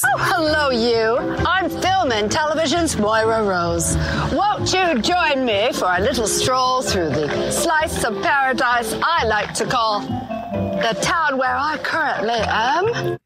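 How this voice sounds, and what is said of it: Posh made-up Moira Rose accent. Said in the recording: “her own accent ... I just made it up ... It's this sort of posh, I kind of know better than you sort of accent”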